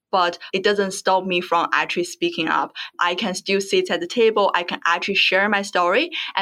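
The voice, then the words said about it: Strong foreign accent. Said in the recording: “I'm a migrant. I have strong accent”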